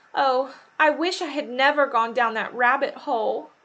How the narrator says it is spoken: Alice moaned

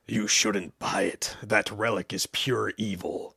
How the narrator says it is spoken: the man hissed

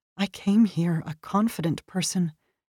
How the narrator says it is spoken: the American translator, a civilian who worked down the hall from me, who whispered

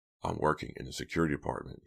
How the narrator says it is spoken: he said quietly

